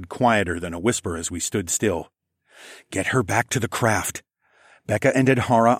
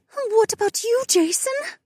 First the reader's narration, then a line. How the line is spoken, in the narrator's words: Becca whimpered